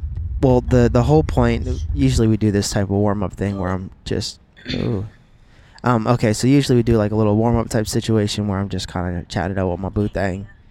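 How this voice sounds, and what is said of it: Whispering. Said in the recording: “Sorry, I can't hear you. You're whispering.”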